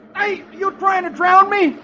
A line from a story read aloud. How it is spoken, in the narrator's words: the boy exclaims